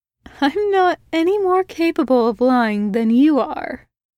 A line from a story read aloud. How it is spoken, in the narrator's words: his brother said with a slight laugh